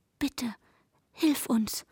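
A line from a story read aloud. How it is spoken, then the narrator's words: Whispered, teeth chattering. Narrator (German): flüsterte mit klappernden Zähnen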